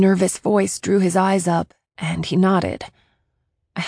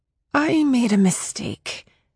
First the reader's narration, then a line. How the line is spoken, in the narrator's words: I breathed out